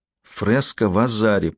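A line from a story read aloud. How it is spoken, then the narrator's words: Whispered. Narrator (Russian): прошептала Сиена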